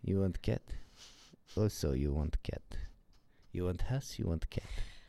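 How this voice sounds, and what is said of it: Put-on foreign accent. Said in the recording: “I'm on fire with my accents today.”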